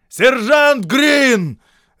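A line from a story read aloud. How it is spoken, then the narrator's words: Barking. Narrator (Russian): рявкнул Шарп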